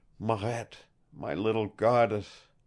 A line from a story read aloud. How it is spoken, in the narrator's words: he whispered